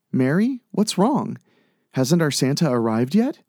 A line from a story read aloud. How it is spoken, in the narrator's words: Delphine asked